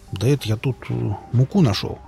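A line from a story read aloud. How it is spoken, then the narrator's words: Muttered. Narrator (Russian): пробормотал Ломов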